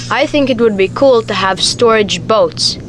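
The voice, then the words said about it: Made-up-sounding accent. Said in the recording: “I think I like your accent. ... I think you just kind of made up that accent.”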